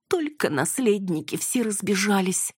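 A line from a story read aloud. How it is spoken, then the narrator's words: Sobbing. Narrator (Russian): Яна зарыдала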